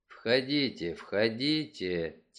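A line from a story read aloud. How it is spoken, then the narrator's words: Quiet. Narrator (Russian): тихо сказал Мегре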